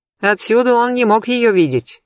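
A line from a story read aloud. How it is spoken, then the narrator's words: Loud, attention-seeking, female. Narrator (Russian): громко сказала я, привлекая внимание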